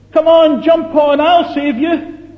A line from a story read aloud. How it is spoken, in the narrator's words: the skipper shouted